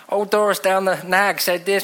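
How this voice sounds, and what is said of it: Vague put-on accent. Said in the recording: “I don't know what accent that was going to be.”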